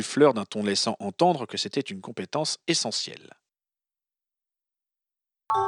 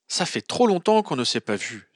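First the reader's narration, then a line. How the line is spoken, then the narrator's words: Exclaimed. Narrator (French): s'exclama-t-elle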